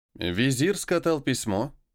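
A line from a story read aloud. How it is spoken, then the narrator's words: Plain. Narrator (Russian): спросил у Глебова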